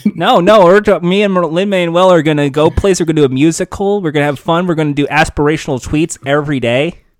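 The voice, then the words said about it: Badly imitates another person's voice. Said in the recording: “your impression of Lin-Manuel Miranda again ... this terrible impression of Lin-Manuel Miranda”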